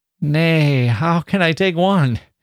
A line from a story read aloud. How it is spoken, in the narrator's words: He said, laughing uneasily